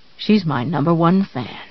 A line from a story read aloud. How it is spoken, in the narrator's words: Paul muttered